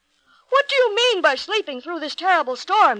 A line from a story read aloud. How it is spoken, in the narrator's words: he cried